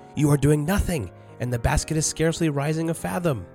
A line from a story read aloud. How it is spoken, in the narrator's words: Rosier cried